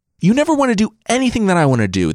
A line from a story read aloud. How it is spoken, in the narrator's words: the king shrieked